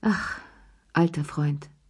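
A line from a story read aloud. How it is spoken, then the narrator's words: Grateful sigh. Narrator (German): seufzte Cherie dankbar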